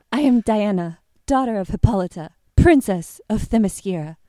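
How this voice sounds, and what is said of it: Wonder Woman with vague foreign accent. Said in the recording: “which is why I have vague foreign accent”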